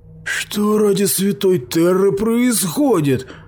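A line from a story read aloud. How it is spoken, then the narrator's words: Howling voice. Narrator (Russian): произнес Грета каким-то воющим голосом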